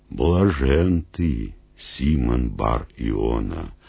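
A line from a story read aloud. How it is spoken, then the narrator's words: Solemn. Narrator (Russian): торжественно проговорил Иисус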